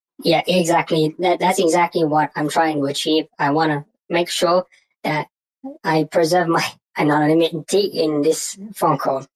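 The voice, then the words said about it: Deliberately distorted voice. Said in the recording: “It sounds a little bit distorted ... if that's deliberate”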